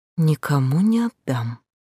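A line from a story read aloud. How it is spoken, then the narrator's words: Soft muffled whisper. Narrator (Russian): зарывшись в батистовые рюши и кружева лицом, тихонечко прошептала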